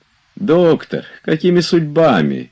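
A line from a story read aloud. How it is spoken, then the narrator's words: Exclamation. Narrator (Russian): воскликнул Обломов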